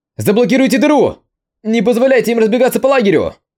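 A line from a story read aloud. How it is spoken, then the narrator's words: Shouted command. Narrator (Russian): Закричал лидер небольшой группы мужчин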